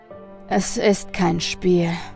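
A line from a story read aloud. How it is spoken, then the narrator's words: Sighing. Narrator (German): sagte der Geschäftsmann mit einem Seufzer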